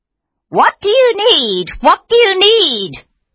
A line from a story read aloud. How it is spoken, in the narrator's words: she cried